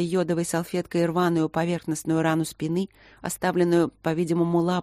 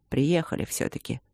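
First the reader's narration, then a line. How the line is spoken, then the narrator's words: Quiet, smiling. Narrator (Russian): сказал он тихо, улыбаясь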